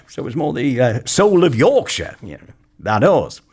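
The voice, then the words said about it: Put-on Yorkshire accent. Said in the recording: “that was the end of the Yorkshire accent”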